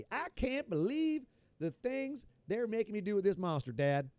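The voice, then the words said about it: Put-on Kentucky accent. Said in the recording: “the kids sound like he from Kentucky”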